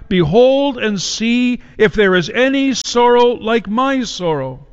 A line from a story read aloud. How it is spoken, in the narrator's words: she called out